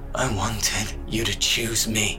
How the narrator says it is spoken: he breathed

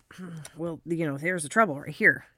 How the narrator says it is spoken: he muttered

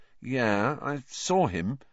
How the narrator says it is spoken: said Harry, slowly

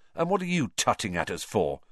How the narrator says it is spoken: said Ron irritably

